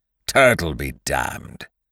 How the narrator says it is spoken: growled Winter

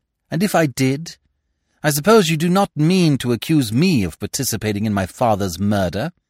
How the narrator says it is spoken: he asked the question haughtily, his head thrown back

